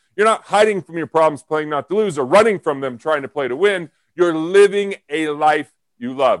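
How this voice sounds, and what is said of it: Loud, yelling, passionate delivery. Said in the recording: “I don't know why I'm yelling so much. I'm a passionate person.”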